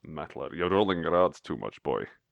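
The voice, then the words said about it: Sean Connery impression. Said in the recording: “It's difficult to say metallurgist in a Sean Connery voice.”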